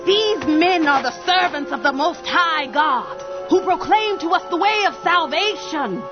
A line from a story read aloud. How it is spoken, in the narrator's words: This girl ... cried out